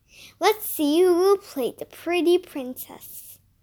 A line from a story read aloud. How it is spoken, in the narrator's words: said Miss Moon